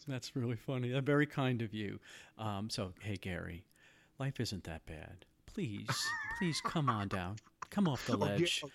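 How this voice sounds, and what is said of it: Soothing NPR-style radio voice. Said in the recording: “you have the most soothing NPR type radio voice perhaps I've ever heard on these podcasts”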